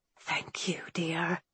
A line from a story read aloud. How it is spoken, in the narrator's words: she whispered